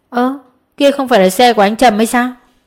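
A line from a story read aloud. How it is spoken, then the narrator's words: Raised voice. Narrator (Vietnamese): một người cất cao giọng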